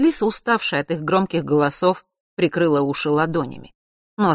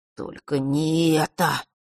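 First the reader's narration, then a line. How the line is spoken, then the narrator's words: Sudden groan. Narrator (Russian): вдруг простонал Фэш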